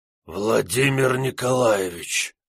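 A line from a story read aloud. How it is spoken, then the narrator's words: Lieutenant's hoarse rasp. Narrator (Russian): прохрипел лейтенант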